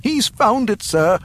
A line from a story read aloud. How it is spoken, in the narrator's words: announced excitedly